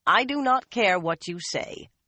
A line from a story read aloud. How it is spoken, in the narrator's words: Lini said firmly